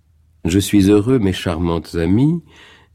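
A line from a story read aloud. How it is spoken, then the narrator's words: Slight Viennese accent. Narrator (French): dit le petit professeur avec un accent qui gardait quelque chose de viennois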